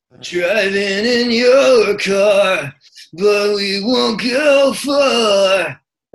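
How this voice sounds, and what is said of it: Sung impression of a singer's voice. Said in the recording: “Charlie's voice is absolutely incredible. I was doing an impression of it yesterday in the car and it really hurt my throat.”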